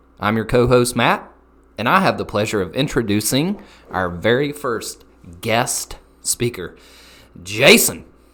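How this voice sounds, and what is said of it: Southern American accent. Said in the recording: “where we discuss the beautiful game with a southern twang”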